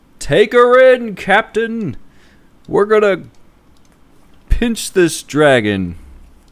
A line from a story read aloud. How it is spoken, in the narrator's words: yell up to Promethor